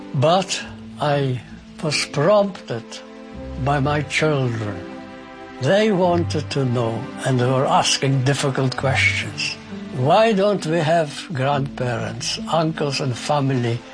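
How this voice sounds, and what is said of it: Speaks with a noticeable foreign accent. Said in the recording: “why do you speak with a funny accent?”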